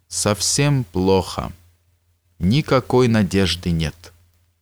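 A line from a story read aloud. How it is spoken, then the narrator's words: Slow. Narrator (Russian): Он медленно проговорил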